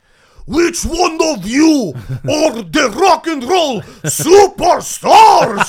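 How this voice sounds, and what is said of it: Thick exaggerated Russian accent. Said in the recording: “Crazy Russian Ashkenazi Jewish ... in the thickest, almost Pixar-level accent”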